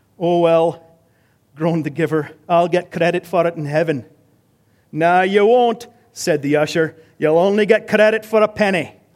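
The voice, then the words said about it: Attempted Scottish accent. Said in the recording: “But the usher was Scottish too ... That was my accent attempt. ... Not bad for a Canadian.”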